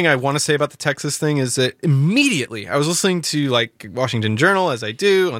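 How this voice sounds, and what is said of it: Usual voice. Nothing is said of it.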